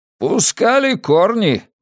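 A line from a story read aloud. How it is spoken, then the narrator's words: Exclamation. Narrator (Russian): воскликнул Жимовик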